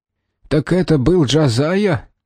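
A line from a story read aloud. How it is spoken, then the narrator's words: Hoarse, damaged throat. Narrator (Russian): Его голос звучал хрипло, горло было повреждено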